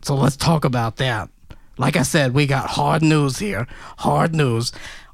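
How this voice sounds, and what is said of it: Put-on Brooklyn accent. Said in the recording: “why am I transforming into a Brooklyn accent?”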